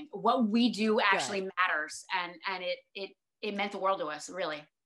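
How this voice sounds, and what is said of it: Choked-up, emotional voice. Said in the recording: “And I'm getting ... You can get choked up.”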